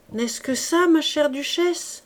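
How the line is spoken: Exclaimed. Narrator (French): s'écria Clara Paolina

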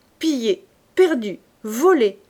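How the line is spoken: Woman exclaiming. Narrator (French): s'écria la vivandière

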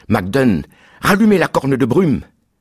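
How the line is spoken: Screamed. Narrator (French): J'ai hurlé

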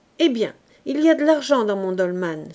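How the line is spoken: Exclaimed. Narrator (French): s'écria-t-il

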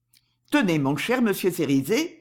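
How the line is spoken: Cold interruption. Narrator (French): dit froidement Barker en interrompant Cerizet

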